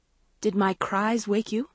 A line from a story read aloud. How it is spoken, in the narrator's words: Maggie asked, her voice still shaky